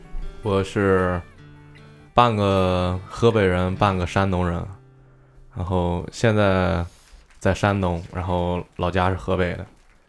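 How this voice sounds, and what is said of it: Heavy regional Mandarin accent. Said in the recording (Chinese): “口音挺重啊”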